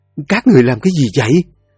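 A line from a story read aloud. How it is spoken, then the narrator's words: Panicked cry. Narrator (Vietnamese): Duyên phát hoảng, cô kêu lên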